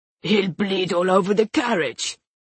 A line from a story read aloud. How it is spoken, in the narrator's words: complained in a low, gruff voice